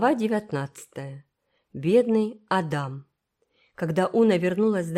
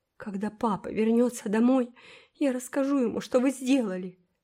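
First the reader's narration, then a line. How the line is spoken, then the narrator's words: Sobbing. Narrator (Russian): всхлипывала Фейт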